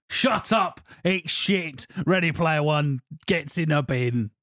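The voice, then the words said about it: Imitates another person's voice. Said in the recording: “my impression... my impression of you”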